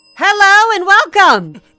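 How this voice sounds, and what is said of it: Shouting loudly. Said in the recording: “There's no need to shout. I'm not hard of hearing, dear.”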